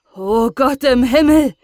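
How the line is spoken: Called out by father. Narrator (German): rief der Vater

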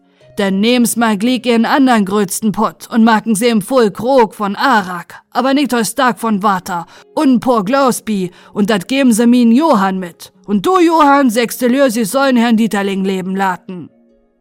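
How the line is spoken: Called out. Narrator (German): rief dann Herr Mayfeld

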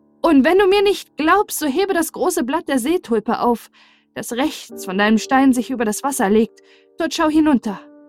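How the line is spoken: Animal calling from below. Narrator (German): Das Tier aber rief wieder von unten

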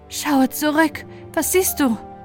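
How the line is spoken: Horse calling over rushing. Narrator (German): Als man das Sausen von Ferne vernahm, rief das weiße Pferd zu

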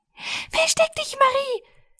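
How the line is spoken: Called out, white mouse. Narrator (German): rief die weiße Maus

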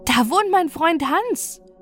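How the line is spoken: Delighted call. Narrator (German): rief erfreut

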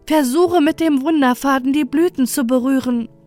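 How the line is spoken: Urgent call in danger. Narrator (German): In dieser Gefahr rief Lora Lisa zu

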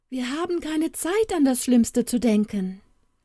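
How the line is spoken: Bright jubilant voice. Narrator (German): jauchzte der Kluge mit heller Stimme

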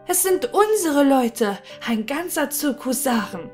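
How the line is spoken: Joyful calling out. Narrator (German): voll Freude rief

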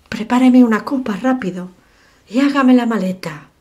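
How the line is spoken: Exclaiming. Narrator (Spanish): exclamó Hobart

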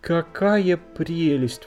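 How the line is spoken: Exclaimed. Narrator (Russian): воскликнула принцесса

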